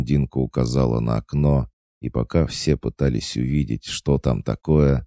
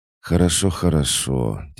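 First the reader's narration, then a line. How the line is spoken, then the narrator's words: Heavy sigh. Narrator (Russian): тяжко вздохнула Иришка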